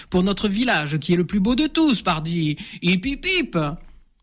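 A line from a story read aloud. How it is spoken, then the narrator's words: Shouting to everyone. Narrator (French): Marcel crie à la cantonade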